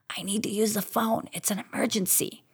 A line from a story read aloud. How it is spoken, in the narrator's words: my sore throat rasp out